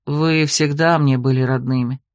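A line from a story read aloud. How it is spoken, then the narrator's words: Quiet confession. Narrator (Russian): тихо признался ведьмак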